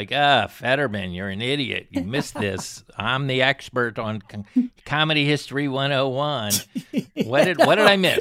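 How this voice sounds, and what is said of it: Impression of the other host. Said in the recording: “was that your impression of me? ... I'm not good on impressions.”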